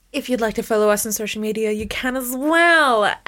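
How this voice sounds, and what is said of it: Polished announcer-style radio voice. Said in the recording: “That was my radio voice.”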